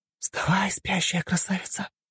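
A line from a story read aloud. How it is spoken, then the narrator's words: Whispering in ear. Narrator (Russian): прошептала она на ухо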